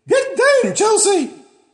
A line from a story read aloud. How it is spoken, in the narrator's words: said Miss Fairburn loudly